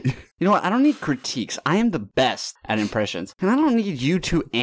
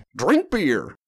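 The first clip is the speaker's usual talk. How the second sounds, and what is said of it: Imitates another person's voice. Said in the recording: “my Angela Merkel impression ... That was great. That was, I was spot on as far as I'm aware.”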